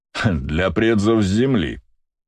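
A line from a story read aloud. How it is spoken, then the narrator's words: Nobleman's scornful snort. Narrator (Russian): фыркнул знатный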